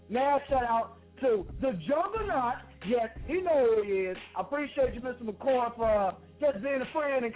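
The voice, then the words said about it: Southern US country accent. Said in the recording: “I am Southern people, so if you don't understand what I'm saying, you sound country ... This is how we get down in the South”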